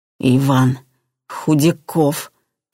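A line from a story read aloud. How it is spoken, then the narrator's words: Forced out. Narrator (Russian): выдавила она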